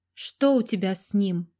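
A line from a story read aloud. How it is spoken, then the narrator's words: Menacing question. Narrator (Russian): грозно спросила Ирина у дочери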